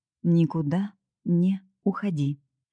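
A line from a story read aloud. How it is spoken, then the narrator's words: Deliberately slow speech. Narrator (Russian): Каспер специально говорил медленно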